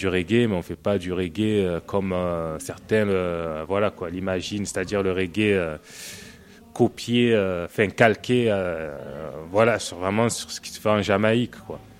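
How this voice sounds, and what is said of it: Sunny regional French accent. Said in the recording (French): “notre accent ... un parler un peu ensoleillé”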